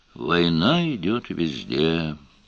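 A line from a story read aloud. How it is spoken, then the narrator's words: Sad old man. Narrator (Russian): печально подтвердил еще один старец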